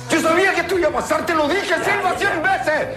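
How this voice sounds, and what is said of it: Shouting angrily. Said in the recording (Spanish): “No grites.”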